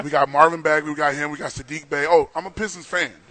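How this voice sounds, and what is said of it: Excited, drops polished radio voice. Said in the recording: “I get out of my radio voice when I get excited about my team.”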